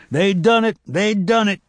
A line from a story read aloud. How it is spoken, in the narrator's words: Tobias came running through the woods, shouting as loud as he could